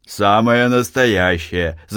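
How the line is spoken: Laughing. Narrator (Russian): засмеялся Архип

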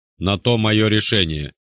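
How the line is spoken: Stern, unwilling to justify. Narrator (Russian): строго сказал я, не желая еще в чем-то убеждать, уж тем более оправдываться

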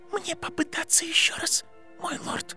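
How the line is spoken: Whisper. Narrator (Russian): прошептала Беллатриса

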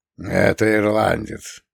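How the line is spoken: Gruff mutter. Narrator (Russian): буркнул Фреда

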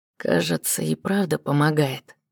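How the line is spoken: Very quiet comment. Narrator (Russian): прокомментировал совсем тихо

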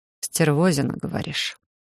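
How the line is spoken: Growled into neck. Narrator (Russian): Рыкнули мне в шею

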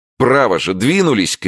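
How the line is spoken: Shouting. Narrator (Russian): крикнул он наконец

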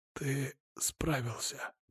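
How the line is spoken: Whisper. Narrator (Russian): прошептал

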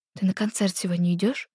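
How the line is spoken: Whispering. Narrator (Russian): Перешла на шепот Света

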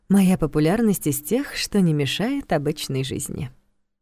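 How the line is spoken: Quiet snort. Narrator (Russian): тихо хмыкнула она

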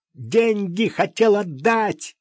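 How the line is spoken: Shouted. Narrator (Russian): крикнул Сережа

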